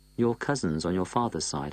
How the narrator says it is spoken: I said

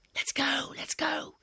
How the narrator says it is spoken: hissed Pasha in my ear

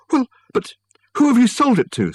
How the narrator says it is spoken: spluttered Michael

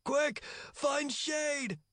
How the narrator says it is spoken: Follower shouted

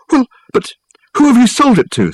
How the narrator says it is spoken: spluttered Michael

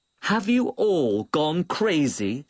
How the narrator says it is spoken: shouted Old Chen, glancing in terror

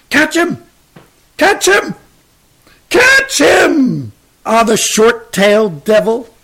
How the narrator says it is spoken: His grandfather cannot help but shout

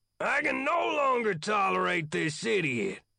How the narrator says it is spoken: the colonel shouted

